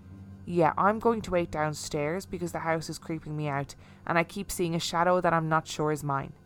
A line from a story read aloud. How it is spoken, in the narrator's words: as calmly as I could in the midst of my panic attack and just said